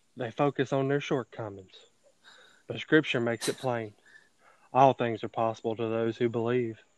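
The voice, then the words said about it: Imitates another person's voice. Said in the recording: “give my best Osteen impression.”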